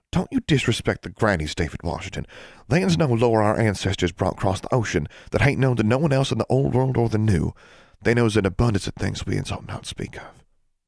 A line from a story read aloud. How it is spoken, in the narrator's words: Forbearance said softly